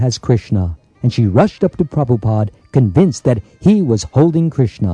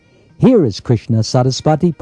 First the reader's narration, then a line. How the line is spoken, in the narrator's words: Prabhupada said